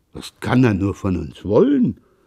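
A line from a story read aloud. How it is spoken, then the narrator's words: Father murmuring after pause. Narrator (German): murmelte nach kurzem Schweigen der Vater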